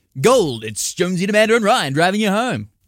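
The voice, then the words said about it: Imitation of Brendan Jones' radio voice. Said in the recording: “What are you doing this voice for? ... Well, that's what you sound like. Brendan Jones.”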